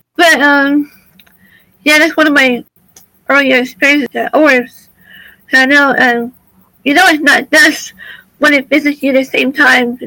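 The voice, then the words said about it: Dry, strained throaty voice. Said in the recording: “Excuse me, my voice. ... My voice is dry. Right. My throat. The allergies don't help either.”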